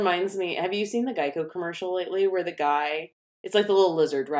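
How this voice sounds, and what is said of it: Usual voice. Nothing is said of it.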